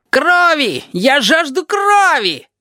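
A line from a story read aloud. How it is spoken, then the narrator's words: Yelling. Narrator (Russian): периодически вопит Табаки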